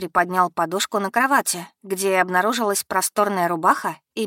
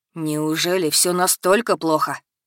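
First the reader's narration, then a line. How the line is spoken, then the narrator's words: Sighing. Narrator (Russian): Вздохнул парень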